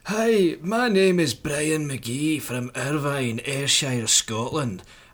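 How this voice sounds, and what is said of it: Put-on Scottish accent. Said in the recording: “you'll have to read this out in a Scottish accent”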